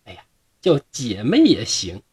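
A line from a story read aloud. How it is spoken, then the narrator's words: Laughing. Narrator (Chinese): 巧娘就笑着说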